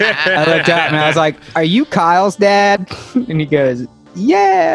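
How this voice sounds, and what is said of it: Usual voice. Nothing is said of it.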